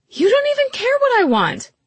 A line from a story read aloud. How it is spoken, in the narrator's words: she said, her voice rising